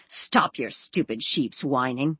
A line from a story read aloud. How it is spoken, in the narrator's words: in her mind, Rosie heard her snarl